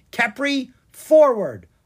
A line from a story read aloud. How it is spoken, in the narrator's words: Anna cried